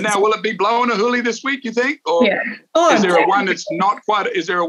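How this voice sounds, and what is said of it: Usual voice. Nothing is said of it.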